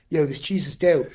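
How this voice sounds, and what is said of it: Put-on Philly accent. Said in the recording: “With a Philly accent”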